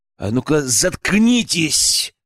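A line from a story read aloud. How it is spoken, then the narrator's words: Angry bark. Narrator (Russian): гаркнул злобно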